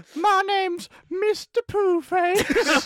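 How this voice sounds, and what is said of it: Silly cartoon character voice. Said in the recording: “here's my brand new character ... It sounds like Christmas Poo out of South Parks as well.”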